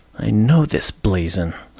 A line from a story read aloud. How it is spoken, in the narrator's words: I muttered, talking to myself more than to the raven